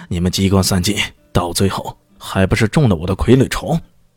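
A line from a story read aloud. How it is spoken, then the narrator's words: Triumphant laughter. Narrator (Chinese): 苟归言…忍不住大笑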